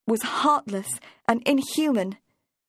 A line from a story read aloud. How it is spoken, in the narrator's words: cried Catherine Sharp